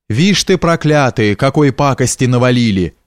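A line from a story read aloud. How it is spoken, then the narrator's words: Old man grumbling under breath. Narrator (Russian): ворчал старик себе под нос, броня христиан, осквернителей храма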